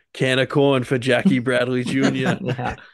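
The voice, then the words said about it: Thick Boston accent. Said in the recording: “in the very thick Boston accent”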